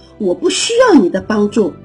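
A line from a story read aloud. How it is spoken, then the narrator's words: Loud yelling. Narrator (Chinese): 沙琪大声的吼着说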